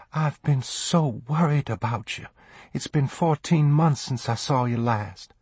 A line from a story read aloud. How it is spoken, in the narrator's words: she whispered